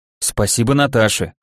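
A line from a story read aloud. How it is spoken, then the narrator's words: Snort. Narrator (Russian): хмыкнул я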